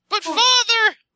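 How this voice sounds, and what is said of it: High-pitched Mickey Mouse-style voice. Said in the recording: “Why do you do his voice as Mickey Mouse?”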